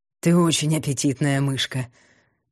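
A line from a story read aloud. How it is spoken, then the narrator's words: Hoarse monstrous breath. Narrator (Russian): хрипло выдохнуло чудовище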